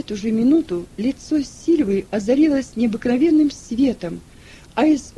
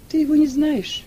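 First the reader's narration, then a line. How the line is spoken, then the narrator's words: Calm. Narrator (Russian): спокойно отвечала Сильва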